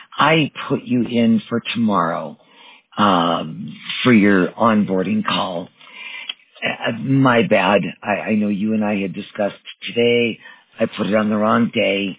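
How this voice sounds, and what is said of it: Hoarse voice from a cold. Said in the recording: “Excuse my voice. It's not getting any better. I caught a cold over the holiday weekend.”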